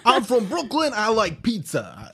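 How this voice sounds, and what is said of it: Put-on Brooklyn accent. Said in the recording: “give me a Boston accent. Or not Boston, Brooklyn. Brooklyn.”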